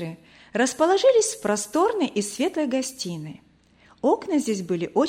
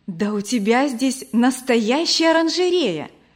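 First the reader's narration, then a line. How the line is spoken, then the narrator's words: Admiring exclamation. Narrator (Russian): в восхищении воскликнула Вера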